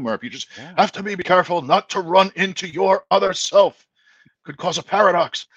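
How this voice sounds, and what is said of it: Poor imitation of another person's voice. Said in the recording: “bad Christopher Lloyd impression ... That was terrible ... That was so bad ... that is not one of my better voices”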